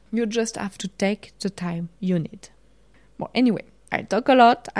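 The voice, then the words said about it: Strong French accent. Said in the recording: “I have a very strong French accent.”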